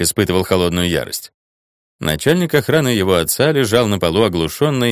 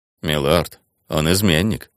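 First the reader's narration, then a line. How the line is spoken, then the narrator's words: Gentle reminder. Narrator (Russian): мягко напомнил Телма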